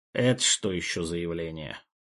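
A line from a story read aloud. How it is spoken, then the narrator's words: Displeased grumble, mouth full. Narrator (Russian): Недовольно проворчал ректор, которого мы застали с печенькой во рту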